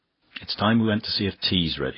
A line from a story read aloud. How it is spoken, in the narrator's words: said Priscilla